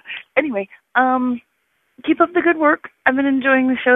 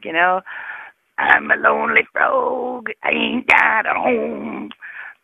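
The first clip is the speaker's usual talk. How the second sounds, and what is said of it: Very low-pitched impression of Sam. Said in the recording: “do a Sam impersonation,... about as low as I go”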